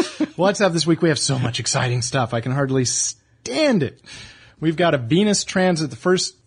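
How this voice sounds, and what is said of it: Usual voice. Nothing is said of it.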